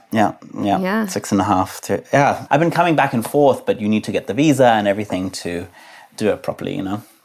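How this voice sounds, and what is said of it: Pleasant voice, English accent. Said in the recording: “You have such a pleasant voice and like beautiful accent ... When did you move from England to New York?”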